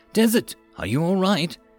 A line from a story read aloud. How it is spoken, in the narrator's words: she asked in her voice shaking